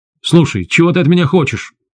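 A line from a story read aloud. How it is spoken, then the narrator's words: Shouted out. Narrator (Russian): выкрикнул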